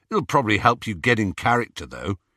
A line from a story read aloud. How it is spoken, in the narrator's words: said Ron